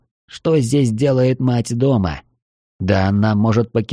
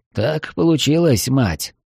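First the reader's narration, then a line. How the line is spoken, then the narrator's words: Sighed. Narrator (Russian): вздохнул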